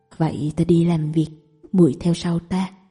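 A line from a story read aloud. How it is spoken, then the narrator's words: Gentle, warm voice. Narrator (Vietnamese): Tàn Ca thấy nàng quả thật không sợ hãi, trong lòng lại tăng thêm vài phần hảo cảm, giọng nói càng dịu dàng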